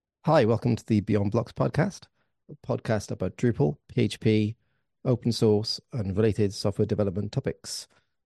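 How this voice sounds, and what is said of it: Hoarse, congested voice from cold. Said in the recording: “I've got a bit of a sore throat and a cold ... my nose started and my throat started”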